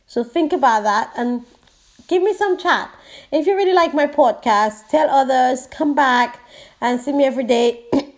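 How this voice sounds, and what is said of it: Hoarse voice. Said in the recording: “I have a cold, so I'm very sorry for my hoarseness”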